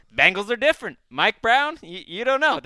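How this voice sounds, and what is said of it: Impression of Wes. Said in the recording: “my ... doing an impression of Wes' impression”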